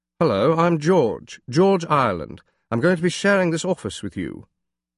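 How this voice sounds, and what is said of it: Very upper-crust English accent. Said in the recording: “His English accent was so upper crust and pronounced that I first thought he was faking it.”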